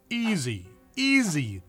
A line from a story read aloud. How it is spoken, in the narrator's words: the doctor exclaimed